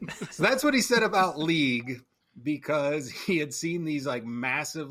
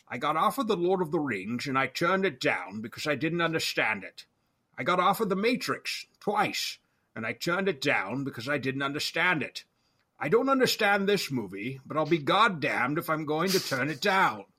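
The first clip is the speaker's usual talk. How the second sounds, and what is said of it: Sean Connery impression. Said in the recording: “my best or worst Sean Connery impression”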